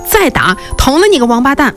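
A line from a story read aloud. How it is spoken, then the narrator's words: Enraged shout. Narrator (Chinese): 杜太白，他脑子一热，对杜天威喊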